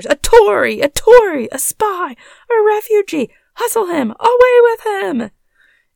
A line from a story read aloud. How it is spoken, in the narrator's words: a general shout burst from the bystanders